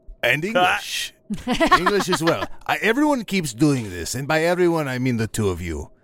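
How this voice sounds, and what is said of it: Ozark accent, feeling sounds like filling. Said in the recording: “He's saying filling. When you've been here as long as we have, you'll start to understand what he's saying ... It's the accent is throwing me up a little bit ... I am from the Ozarks”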